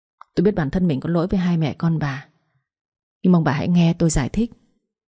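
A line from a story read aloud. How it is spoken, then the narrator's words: Sighing. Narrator (Vietnamese): Ông Phước thở dài nói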